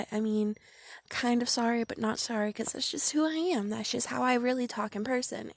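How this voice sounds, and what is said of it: Speaks with a strong accent. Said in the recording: “my fucked up pronunciations because of my accent ... It's just the way I talk”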